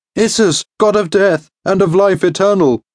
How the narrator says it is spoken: cried

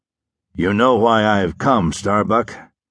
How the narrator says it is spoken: asked in a husky voice that was not his own

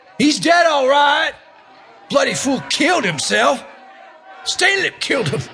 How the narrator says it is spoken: Matisak shouted

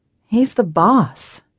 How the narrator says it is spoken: I tell Farrah with a sigh

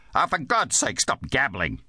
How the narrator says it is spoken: snapped

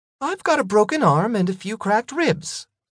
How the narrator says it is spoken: Tanny said with a sneer

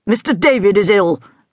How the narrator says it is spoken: grunted Mr

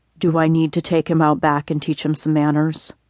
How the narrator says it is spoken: whispered in her ear

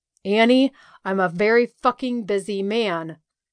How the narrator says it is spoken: growled next to my ear

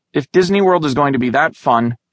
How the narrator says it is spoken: she cried

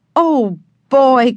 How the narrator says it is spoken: cried Benny

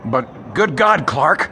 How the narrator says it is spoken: stammered the property man

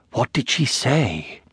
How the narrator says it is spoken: whispered

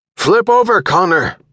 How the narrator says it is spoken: Urquhart shouted

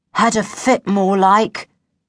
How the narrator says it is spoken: said gloomily

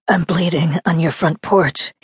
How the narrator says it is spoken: he muttered

